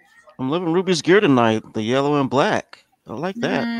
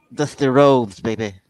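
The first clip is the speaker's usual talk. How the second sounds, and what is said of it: Dusty Rhodes impression. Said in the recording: “that's a good impression”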